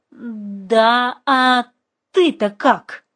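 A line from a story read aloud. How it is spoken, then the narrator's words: Strained, forced out. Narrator (Russian): выдавила из себя знакомая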